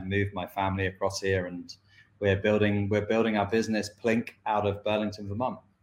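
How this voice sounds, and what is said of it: British London accent. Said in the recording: “I'm from the UK, from London.”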